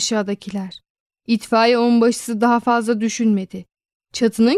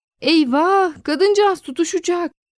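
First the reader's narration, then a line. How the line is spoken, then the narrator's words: Crowd shouting. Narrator (Turkish): diye bağırıyordu insanlar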